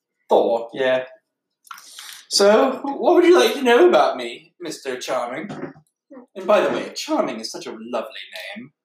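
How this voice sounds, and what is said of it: Performed character voice. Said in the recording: “pause your impression”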